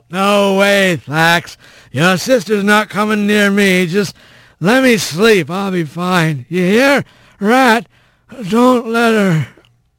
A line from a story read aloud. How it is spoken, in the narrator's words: Bobcat's slurred voice called out